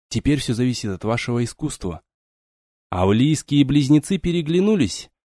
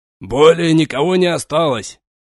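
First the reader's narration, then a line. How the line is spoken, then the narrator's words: Shouting soldier. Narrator (Russian): прокричал один из щитоносцев прикрытия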